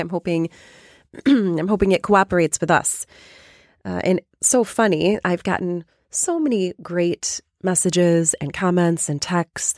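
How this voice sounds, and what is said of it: Raspy, slightly hoarse voice. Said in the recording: “I am a little bit under the weather this week. ... my voice is a little raspy”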